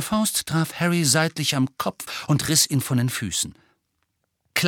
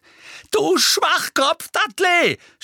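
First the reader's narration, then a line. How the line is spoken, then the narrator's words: Shouted insult. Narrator (German): schrie Harry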